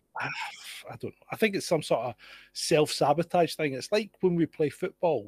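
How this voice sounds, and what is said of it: Scottish accent. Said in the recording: “You're the Scottish one.”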